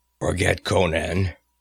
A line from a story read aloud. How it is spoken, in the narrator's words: he said thickly